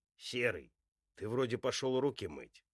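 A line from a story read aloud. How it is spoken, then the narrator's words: Angry growl. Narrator (Russian): Слышится злое рычание снизу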